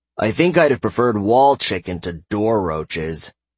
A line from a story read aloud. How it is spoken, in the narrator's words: Caden grumbled